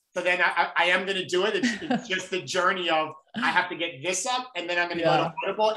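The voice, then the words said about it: New York accent. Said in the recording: “your New York accent”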